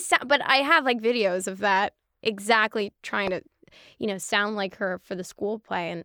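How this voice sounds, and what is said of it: Usual voice. Nothing is said of it.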